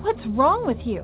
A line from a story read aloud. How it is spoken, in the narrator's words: This time my aunt yelled